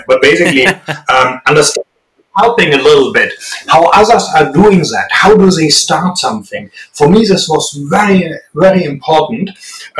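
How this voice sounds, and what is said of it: Strong German accent in English. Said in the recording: “I know I still have a very strong accent ... I very successfully failed getting rid of my strong German accent”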